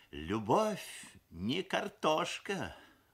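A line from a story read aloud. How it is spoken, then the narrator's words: Mother sighing. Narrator (Russian): вздохнула мамаша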